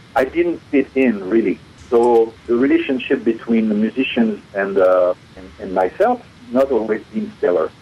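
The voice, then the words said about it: French accent in English. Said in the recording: “I tried to lose my accent ... When I said I want to lose my French accent, most of the time I got, no. So I kept it”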